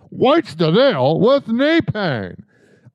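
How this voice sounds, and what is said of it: Jerry Seinfeld impression. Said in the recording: “I'm going to do a Jerry Seinfeld impersonation.”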